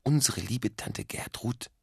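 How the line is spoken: Continued whisper. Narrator (German): Doppel-Otto flüsterte weiter

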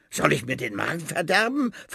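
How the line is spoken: Hissing rat. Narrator (German): faucht die Ratte

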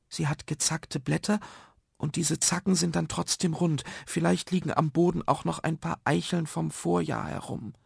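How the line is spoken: Quiet boy whispering softly. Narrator (German): flüsterte der stille Malte, so dass nur Nuno es hören konnte

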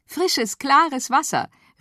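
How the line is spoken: Called out. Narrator (German): rief Feli

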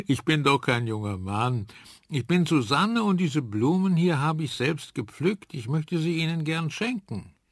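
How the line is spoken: Laughing. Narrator (German): lachte Susanne

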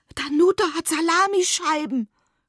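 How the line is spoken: Panting. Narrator (German): keuche

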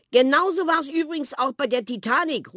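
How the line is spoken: Grandmother calling out. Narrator (German): ruft Oma Polly Theo und Marthe zu

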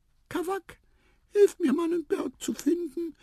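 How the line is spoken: Squeaky voice. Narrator (German): piepste Tipotip

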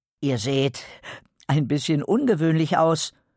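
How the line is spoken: Hesitant. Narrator (German): sagte Quirino zögernd

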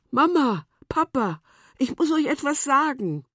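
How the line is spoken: Girl calling out. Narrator (German): das Mädchen rief

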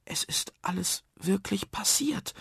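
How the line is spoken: Wondering whisper. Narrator (German): wunderte sich Nuno im Flüsterton

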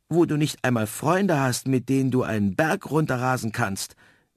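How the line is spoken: Snowy owl calling. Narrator (German): rief die Schneeeule

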